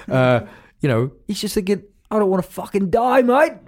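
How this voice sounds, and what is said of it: Bad put-on Australian accent. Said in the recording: “Bad Australian accent.”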